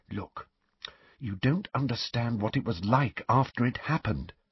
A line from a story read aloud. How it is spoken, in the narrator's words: said Hermione quietly